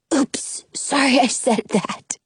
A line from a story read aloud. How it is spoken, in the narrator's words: Jonah whispers back